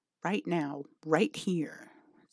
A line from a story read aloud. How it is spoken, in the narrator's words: the demon growls